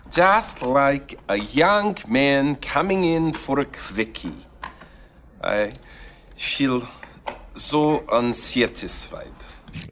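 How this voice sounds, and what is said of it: Badly done put-on accent. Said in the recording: “It's a bad accent. I really believe it's bad”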